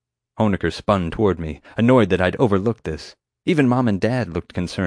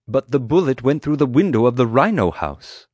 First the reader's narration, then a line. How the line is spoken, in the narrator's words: Atmani exclaimed